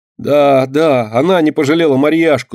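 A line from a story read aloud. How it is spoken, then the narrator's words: Tearful angry shouting. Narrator (Russian): со слезами и гневом кричала мышка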